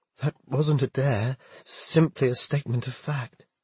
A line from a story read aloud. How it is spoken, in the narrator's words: Groaning again, Nathaniel said